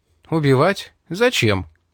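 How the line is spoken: Calm. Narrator (Russian): спокойно сказал он

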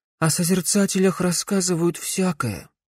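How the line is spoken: Muttering. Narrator (Russian): пробормотал Верн

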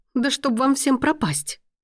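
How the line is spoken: Exasperated exclamation. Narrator (Russian): воскликнула она в сердцах

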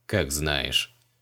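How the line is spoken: Snort. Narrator (Russian): Фыркнул маг

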